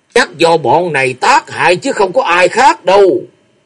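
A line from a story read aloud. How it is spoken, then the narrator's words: Furious loud shout. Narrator (Vietnamese): ông vô cùng tức giận, quát to lên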